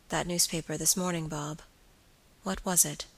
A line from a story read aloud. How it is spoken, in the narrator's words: in a hesitating manner, said quietly